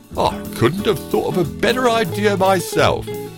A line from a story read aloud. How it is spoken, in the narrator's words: cried the honey badger